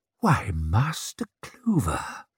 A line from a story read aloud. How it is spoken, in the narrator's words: breathed Baiaz